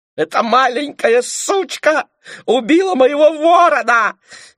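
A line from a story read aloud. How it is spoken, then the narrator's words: Shrieking. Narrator (Russian): визжала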